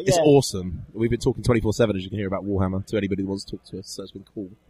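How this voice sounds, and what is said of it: Croaky, strained voice. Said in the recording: “we've both got croaky voices. Our throats are hurting... My voice is going.”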